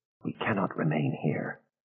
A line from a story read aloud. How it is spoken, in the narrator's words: Aida whispered